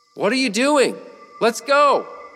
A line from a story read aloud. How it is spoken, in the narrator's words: yelled